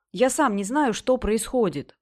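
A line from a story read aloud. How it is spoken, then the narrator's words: Exclaiming. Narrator (Russian): воскликнул Бадди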